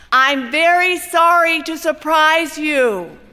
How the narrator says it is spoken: He says loudly so you can hear him through the glass

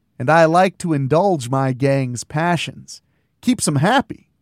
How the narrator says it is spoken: Dell chuckled

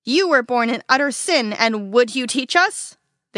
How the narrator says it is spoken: they shouted

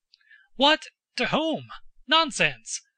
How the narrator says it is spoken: cried the count, suddenly reddening with an apoplectic flush over neck and nape as old people do

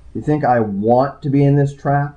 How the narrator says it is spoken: I snapped at him

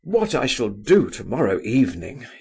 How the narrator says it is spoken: he exclaimed

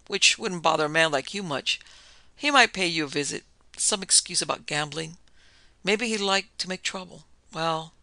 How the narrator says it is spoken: Then with a laugh

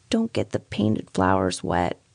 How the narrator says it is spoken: says Miss Denison very feebly

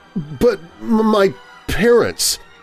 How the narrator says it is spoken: Peter said shakily

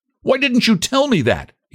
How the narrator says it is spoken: he demanded angrily

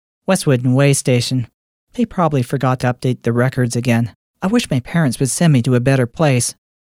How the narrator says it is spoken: With as much irritation in her voice as she could muster, she curtly replied

